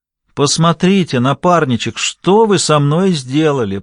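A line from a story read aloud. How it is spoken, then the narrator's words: Groaning. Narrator (Russian): простонала Сандра, поскольку Томас брал взятку за взяткой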